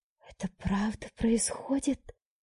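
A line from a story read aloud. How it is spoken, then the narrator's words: Whisper. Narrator (Russian): прошептала я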